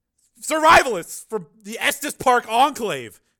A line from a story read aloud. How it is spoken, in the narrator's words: shouted Tracy